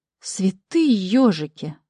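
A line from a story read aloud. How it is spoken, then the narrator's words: Startled exclamation. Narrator (Russian): воскликнула я, невольно отпрянув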